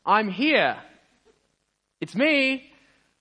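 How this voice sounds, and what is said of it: Loud proclaiming voice. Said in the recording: “in a loud voice”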